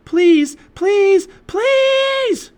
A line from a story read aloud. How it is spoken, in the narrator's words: she shouted